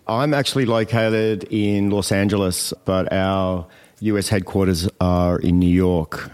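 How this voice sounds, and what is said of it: Australian accent. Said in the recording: “Love the accent. ... So clearly Australian.”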